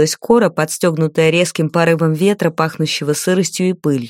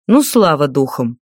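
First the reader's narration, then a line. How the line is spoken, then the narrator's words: Grumbling. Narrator (Russian): ворчал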